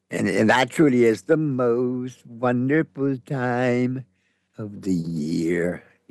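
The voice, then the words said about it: Imitates a crooning singer's voice. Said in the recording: “that's my Johnny Mathis impersonation.”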